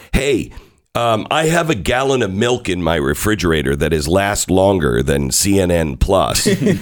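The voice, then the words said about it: Voice roughened, not normal. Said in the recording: “I apologize for my voice, but it's the allergy season here, and it is worse than I've ever seen in my life”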